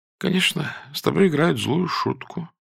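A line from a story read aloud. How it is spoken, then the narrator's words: Sleepy, contemptuous mumble. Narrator (Russian): пробормотала она сонно и презрительно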